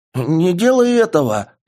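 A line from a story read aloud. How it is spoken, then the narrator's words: Frightened scream. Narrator (Russian): испуганно завопил он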